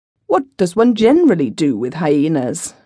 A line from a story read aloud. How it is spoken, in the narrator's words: I asked crossly